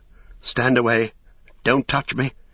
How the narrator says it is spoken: he cried

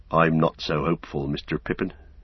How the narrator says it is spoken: said Sam

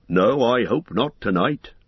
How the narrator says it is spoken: answered Tom Bombadil

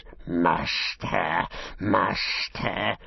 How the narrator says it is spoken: he hissed

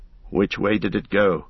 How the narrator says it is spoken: asked Strider suddenly and sharply

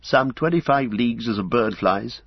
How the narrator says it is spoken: answered Faramir

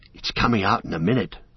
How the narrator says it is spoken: whispered Pippin to Merry

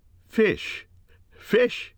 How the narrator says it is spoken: he cried

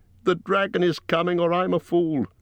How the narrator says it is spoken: he cried

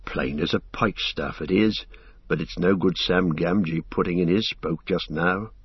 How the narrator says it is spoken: Sam, who had been watching his master with great concern, shook his head and muttered

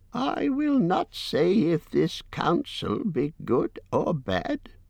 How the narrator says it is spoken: croaked Roak

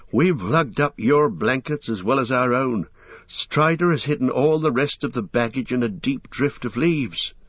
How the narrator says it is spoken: said Merry, panting

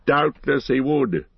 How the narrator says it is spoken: laughed Gandalf

